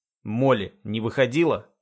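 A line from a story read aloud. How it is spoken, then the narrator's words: Sharp question. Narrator (Russian): спрашиваю резко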